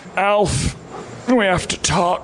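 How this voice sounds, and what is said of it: Imitates a sitcom dad's voice. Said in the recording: “my impression of Alf's dad, Max Wright.”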